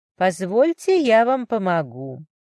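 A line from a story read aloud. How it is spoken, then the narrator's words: Velvety woman's voice. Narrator (Russian): все тем же бархатистым тоном произнесла дама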